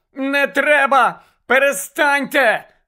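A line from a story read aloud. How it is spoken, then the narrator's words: Whiny shriek. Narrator (Ukrainian): верещала плаксива Мірта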